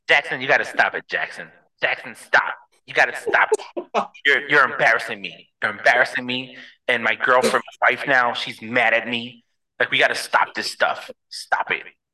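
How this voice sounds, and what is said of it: Imitates another person's voice. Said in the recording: “The way Patrick Mahomes talks ... this is my serious voice.”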